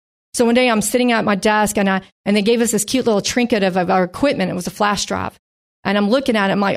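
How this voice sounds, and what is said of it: Usual voice. Nothing is said of it.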